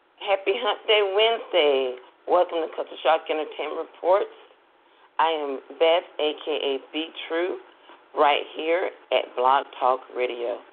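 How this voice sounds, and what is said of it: Raspy voice. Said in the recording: “excuse my voice. I haven't had my cup of coffee ... I didn't realize my voice was so raspy this morning, but I have a raspy voice.”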